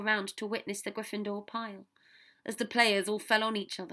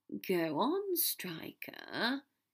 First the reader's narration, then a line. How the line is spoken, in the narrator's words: he said wearily